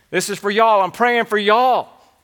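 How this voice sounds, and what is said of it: Exaggerated Southern accent. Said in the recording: “a good Southern accent”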